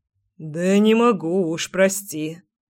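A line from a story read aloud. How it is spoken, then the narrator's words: Man's hoarse mutter. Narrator (Russian): хрипло пробормотал мужчина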